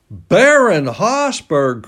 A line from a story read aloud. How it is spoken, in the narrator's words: cried Huey